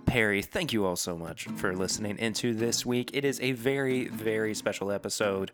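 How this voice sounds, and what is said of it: Hoarse, rough voice. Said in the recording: “I am your hoarse-voiced host.”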